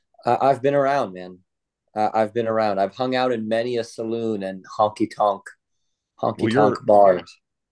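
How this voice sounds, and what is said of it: Southern US accent. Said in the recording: “beautiful southern accent”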